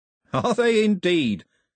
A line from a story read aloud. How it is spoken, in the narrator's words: said Cox cheerfully